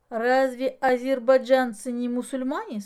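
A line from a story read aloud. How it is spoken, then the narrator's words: Plain. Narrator (Russian): спросил Денис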